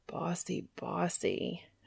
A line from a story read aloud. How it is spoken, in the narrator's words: Dean groaned